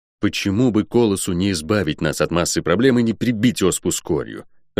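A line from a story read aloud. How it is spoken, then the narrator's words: Irritated. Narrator (Russian): раздраженно сказал я Лайн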